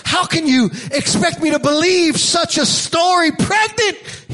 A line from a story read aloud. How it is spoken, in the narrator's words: shouts at her